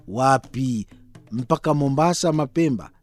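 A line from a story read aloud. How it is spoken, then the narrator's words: Flustered. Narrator (Swahili): nilibabaika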